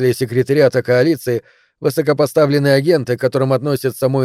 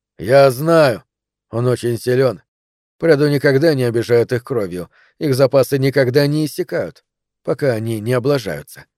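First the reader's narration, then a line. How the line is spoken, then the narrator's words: Plain. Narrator (Russian): так говорит Терри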